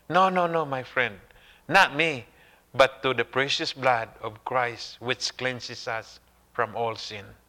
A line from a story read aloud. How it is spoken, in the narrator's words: Wesley replied softly